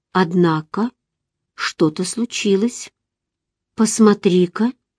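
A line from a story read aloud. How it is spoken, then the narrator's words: Calm voice. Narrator (Russian): Мино спокойным голосом сказал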